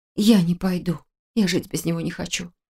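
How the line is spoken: Whisper. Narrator (Russian): прошептала я

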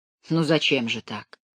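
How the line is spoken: Soft, general speaking. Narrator (Russian): мягко проговорил генерал

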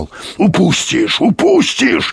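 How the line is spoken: Growl. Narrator (Russian): рычал Юрковский

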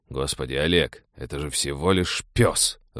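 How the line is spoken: Irritated, raised voice, father. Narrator (Russian): раздраженно повысил голос отец

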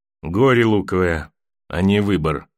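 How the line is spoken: Grumbling mutter. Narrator (Russian): буркнул Давос

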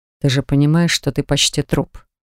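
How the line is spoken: Quiet, menacing question. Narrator (Russian): спросил Дан тихо, но от его голоса, казалось, даже тьма вокруг испуганно застыла

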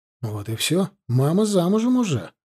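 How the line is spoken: Whisper. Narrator (Russian): шепнул я

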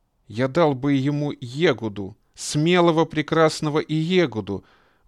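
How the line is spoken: Exclaimed. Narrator (Russian): воскликнул хранитель денежного ящика

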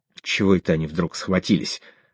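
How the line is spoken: Gloomy question. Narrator (Russian): мрачно поинтересовался Седой

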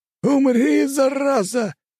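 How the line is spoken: Shouting. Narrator (Russian): закричал Флавий

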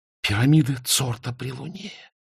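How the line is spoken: Breathless exhale. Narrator (Russian): выдохнула Изабель

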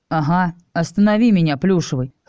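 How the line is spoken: Smirking grunt. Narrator (Russian): хмыкнул я

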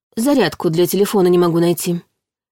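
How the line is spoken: Sighing. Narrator (Russian): вздохнула Яра

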